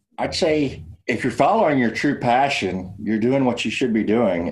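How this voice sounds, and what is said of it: Texas accent. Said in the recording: “from the Fort Worth area down in Texas, as you might be able to tell from his accent.”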